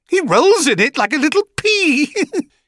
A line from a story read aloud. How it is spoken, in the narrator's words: he said with a surprisingly high-pitched giggle